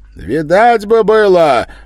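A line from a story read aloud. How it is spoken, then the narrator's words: Shouted. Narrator (Russian): выкрикнул боярин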